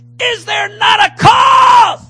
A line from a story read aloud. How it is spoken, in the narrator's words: When David heard the uncircumcised giant scream at the army of the Most High God, the giant killer in his life welled up and said